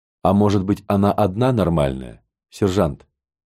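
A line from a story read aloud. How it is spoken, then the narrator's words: Plain. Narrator (Russian): спросил я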